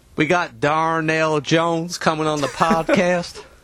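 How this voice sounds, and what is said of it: Put-on Southern accent. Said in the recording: “your best Darnell Jones in a Southern accent? ... Ugh. Bad enough for me to lay hands on you”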